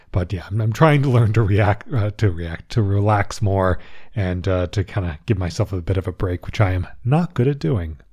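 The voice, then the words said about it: Slightly strained, recovering voice. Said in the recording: “there's some issues with my vocal cords. So my voice might sound a little bit different, although it's steadily recovering”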